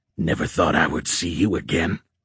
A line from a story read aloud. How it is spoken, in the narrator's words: creature growled